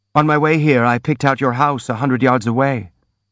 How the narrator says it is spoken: the prince said

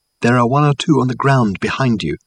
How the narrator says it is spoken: called Reg softly

